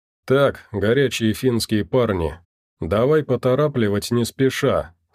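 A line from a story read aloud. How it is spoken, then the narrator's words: Plain. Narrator (Russian): сказал якорь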